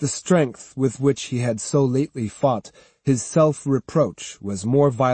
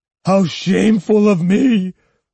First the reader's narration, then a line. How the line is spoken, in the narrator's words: wailed the priest